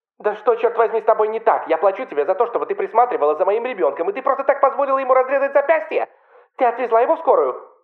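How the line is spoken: Mother shouting. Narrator (Russian): закричала его мама

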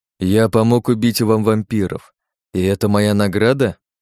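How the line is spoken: Restrained anger, forced calm. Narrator (Russian): Ярость внутри меня закипала, но я старался обуздать ее и говорить с ним спокойно

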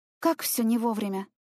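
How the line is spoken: Sigh. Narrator (Russian): вздохнула я

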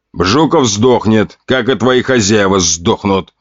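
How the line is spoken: Growled in reply. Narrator (Russian): рыкнул я в ответ

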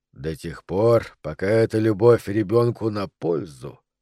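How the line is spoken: More serious tone. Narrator (Russian): проговорил мистер Уотли уже более серьезным тоном

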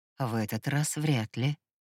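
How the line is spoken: Hoarse excited whisper. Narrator (Russian): севшим от возбуждения голосом прошептал он

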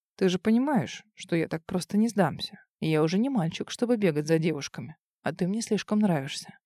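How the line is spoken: Insinuating, ingratiating. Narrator (Russian): Он вкрадчиво произнес

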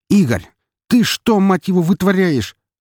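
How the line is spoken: Shouted. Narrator (Russian): закричал Виктор

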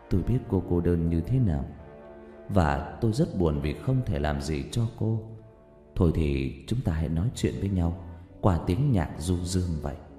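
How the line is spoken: Whisper. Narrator (Vietnamese): Rách thì thầm

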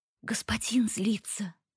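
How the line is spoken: Frightened whisper. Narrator (Russian): испуганно прошептала она, нервно оглядываясь назад

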